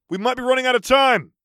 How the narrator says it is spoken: Kelly called out

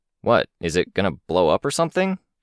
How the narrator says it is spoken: he asked, with a chuckle

